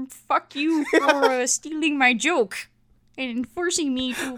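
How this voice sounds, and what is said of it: Usual voice. Nothing is said of it.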